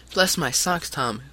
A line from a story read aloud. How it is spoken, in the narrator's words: cried the short, stout man